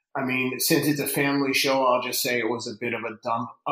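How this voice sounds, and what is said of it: Boston accent. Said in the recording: “I hear the accent. ... I've lived in Boston myself.”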